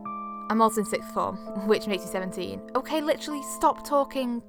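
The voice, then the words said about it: Northwest English accent. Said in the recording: “Maybe you can tell from my accent, I don't know. But it's in England. Northwest.”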